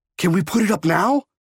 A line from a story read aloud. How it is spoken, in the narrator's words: yelled